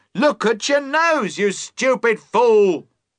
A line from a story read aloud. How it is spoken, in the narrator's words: the voice cried again, more loudly this time